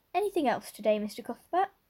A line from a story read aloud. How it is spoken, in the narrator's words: Miss Harris cheerfully inquired